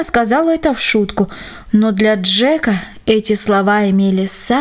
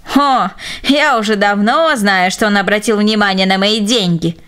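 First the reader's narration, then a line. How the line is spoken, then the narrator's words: Spiteful old woman's giggle. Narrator (Russian): злобно хихикнула старушка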